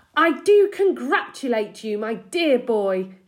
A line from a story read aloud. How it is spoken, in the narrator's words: he cried